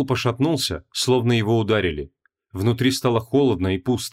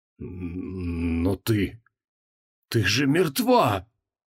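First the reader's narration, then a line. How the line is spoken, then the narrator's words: Hoarse rasp. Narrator (Russian): прохрипел Креол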